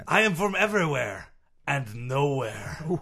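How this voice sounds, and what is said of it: Character voice with unusual accent. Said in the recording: “that interesting accent”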